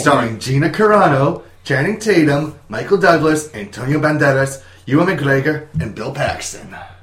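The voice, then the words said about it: Put-on Scottish accent. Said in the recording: “try to go with a Scottish accent while saying Ewan McGregor”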